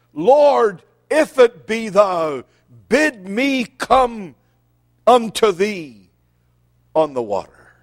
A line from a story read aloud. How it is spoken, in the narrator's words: immediately Peter cried